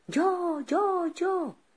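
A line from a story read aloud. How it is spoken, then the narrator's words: Crowd shouting. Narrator (Spanish): gritaban todos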